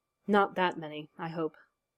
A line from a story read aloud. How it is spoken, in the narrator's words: said Garrick in a much quieter voice than usual